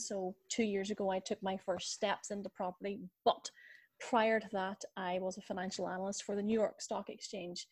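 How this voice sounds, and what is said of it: Irish accent. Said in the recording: “my beautiful Irish accent”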